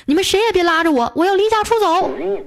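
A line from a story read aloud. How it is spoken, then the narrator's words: Angry, fierce. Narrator (Chinese): 为了一点小事儿啊，和我老妈吵了几句，我就狠狠地说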